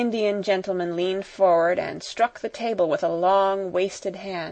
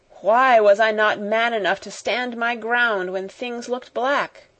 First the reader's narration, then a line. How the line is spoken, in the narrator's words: Carrisford groaned in petulant misery